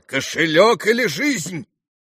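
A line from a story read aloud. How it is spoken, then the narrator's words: Frenzied shout. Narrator (Russian): фигура неистовым голосом прокричала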